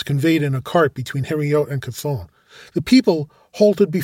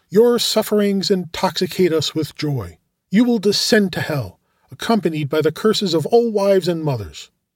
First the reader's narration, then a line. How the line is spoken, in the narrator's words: one of them exclaimed